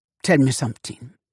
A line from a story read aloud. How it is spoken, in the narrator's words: said Daddy Pa